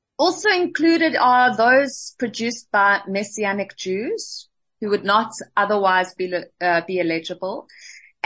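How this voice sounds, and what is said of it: Speaks with a foreign accent. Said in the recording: “I'm sorry, my accent.”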